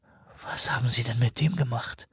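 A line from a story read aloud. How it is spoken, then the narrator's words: Whispered. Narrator (German): flüsterte er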